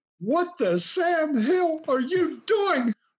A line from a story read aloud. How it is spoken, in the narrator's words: screamed